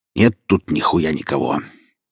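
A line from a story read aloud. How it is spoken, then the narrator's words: Very angry voice from behind. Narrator (Russian): Сказали его голосом, правда, очень злобно, за спиной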